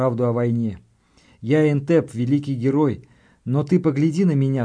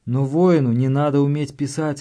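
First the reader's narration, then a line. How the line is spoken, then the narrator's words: Timid whisper. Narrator (Russian): робко прошептал я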